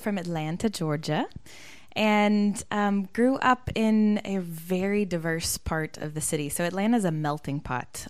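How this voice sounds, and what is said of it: Noticeable American accent. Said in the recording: “your accent's going to give you away”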